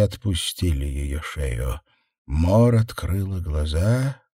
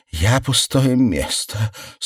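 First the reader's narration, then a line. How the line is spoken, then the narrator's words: Strained, forced out. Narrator (Russian): С трудом сумела выдавить Мор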